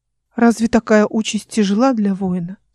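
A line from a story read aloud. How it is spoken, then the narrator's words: Soothing question. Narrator (Russian): спросила Мелинда своим умиротворяющим тоном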